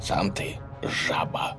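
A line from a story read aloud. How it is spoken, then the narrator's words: Ruler speaking through gritted teeth. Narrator (Russian): процедил правитель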